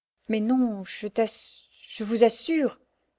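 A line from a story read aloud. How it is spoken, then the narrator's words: Stammered. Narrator (French): balbutia Marianne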